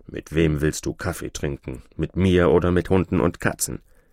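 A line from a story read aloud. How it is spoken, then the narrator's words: Grumbling. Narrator (German): Türschemann brummte wieder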